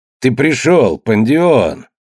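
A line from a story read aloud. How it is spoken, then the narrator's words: Joyful greeting. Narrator (Russian): радостно приветствовал художник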